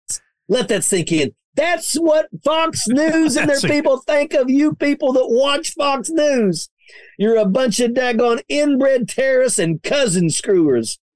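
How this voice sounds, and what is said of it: West Virginia accent. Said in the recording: “I love how he's got that accent from West Virginia”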